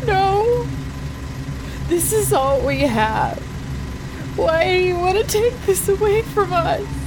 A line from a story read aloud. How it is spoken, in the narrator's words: wails continued